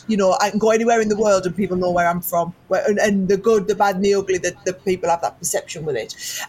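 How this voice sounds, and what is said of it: Northern English accent. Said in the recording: “I was always the girl that sounded like this... I'm northern and proud, so I have never even tried to lose this accent... I was from the Northeast”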